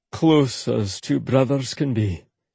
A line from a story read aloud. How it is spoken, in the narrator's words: he said solemnly